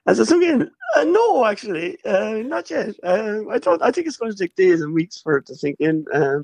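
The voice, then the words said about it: Hoarse voice. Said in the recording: “I'm a bit hoarse.”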